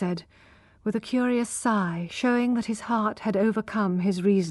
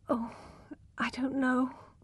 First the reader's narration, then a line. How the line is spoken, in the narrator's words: murmured, trying to pull away